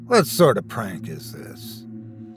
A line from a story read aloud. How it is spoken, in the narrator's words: muttering